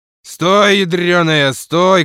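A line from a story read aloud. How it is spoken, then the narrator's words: Shouting from porch. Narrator (Russian): кричал Евстигней с крыльца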